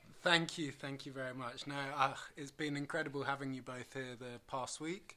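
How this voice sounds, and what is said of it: British English accent. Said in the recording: “I'm actually from the UK. ... The accent hasn't changed ... much.”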